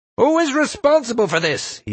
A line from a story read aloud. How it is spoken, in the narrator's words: he bellowed